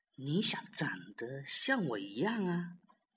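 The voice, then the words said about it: Soft, quiet whispered line. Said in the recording (Chinese): “霸王龙小声的说”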